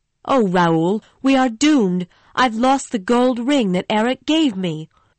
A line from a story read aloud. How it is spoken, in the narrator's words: she cried